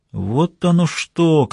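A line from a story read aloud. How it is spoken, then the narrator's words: Sleepy mumble. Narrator (Russian): как спросонья пробормотал Келли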